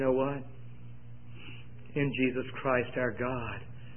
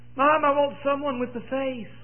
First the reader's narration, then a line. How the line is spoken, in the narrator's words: Child hollered back